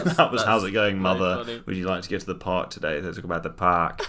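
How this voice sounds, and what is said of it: Usual voice. Nothing is said of it.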